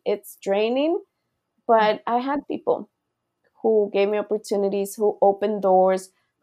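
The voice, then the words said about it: Non-native English accent. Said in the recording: “I have an accent”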